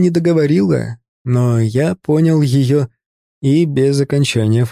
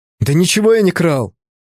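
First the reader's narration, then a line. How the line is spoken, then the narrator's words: Nearly shouted, then lowered. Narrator (Russian): Почти крикнул я, понизив голос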